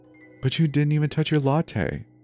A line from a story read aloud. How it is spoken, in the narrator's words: she said in a syrupy voice